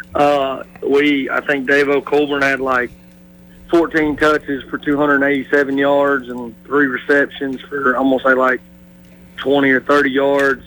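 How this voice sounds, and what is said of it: Hoarse, strained voice. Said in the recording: “as I'm hoarse, you can tell.”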